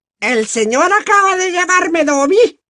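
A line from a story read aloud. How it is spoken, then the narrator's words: Strange muffled elf squeal. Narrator (Spanish): chilló el elfo, de forma extraña, por el resquicio de los dedos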